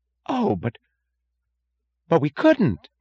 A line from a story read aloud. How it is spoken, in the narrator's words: gasped Mooch